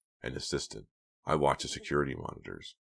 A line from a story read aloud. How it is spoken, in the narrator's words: he said quietly